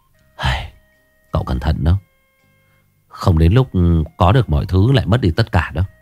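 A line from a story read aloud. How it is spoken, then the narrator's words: Sighing. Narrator (Vietnamese): Phóng vẫn thở dài nói một câu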